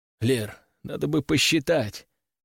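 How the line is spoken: Hoarse rasp. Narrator (Russian): прохрипел

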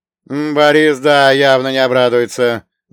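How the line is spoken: Angry, spat out. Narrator (Russian): зло выплюнул Прохор

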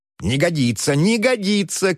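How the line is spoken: Dwarves shouting. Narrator (Russian): кричали гномы

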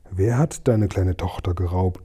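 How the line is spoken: Plain. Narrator (German): fragte ich

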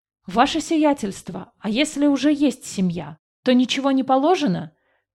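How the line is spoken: Workman shouting out. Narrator (Russian): выкрикнул один из мужиков-работников

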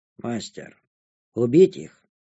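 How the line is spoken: Quiet question. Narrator (Russian): негромко поинтересовалась у меня Безымянная

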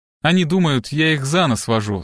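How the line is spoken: Plain. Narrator (Russian): сказала Леонора

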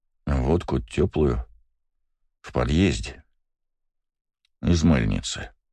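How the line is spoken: Muttered. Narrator (Russian): пробормотал я

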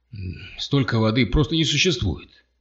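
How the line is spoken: Shouting, drowned by rain. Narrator (Russian): прокричал Картер и понял, что его голос совершенно заглушен шумом дождя

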